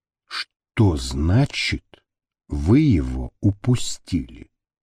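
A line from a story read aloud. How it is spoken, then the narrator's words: Calm, hinting at hysteria. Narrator (Russian): Пока еще спокойным голосом, в котором уже угадывались истерические нотки, спросил он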